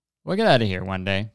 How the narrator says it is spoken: John says

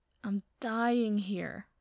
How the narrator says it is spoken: Sokka groans

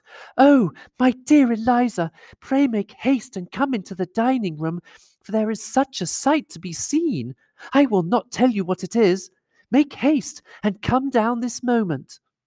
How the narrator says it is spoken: Maria, who, breathless with agitation, cried out

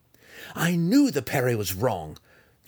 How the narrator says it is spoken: Drizzt cried, already savoring the next time he would get the opportunity to foil the double thrust low

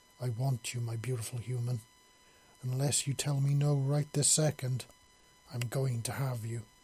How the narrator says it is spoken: she purred softly

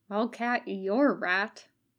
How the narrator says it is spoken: Katsuko muttered under her breath

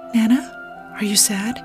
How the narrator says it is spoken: She whispered

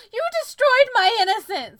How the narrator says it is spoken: I screamed

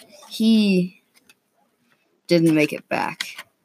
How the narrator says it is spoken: he said solemnly

